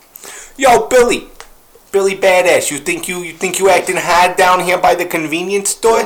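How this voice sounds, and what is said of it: Put-on New York cop accent. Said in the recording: “fake the accent ... if I lived anywhere other than New York, I'd fucking be a cop with that mustache who talked like this”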